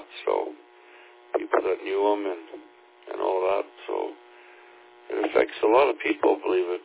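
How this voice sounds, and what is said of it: Slightly hoarse morning voice. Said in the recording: “my voice is a little bit hoarse here this morning ... Still waking up, I guess.”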